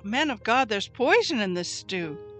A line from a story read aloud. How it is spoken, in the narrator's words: they cried out